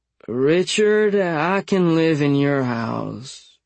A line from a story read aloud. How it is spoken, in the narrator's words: He slurred